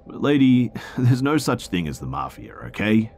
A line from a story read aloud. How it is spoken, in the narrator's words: The man laughed and told her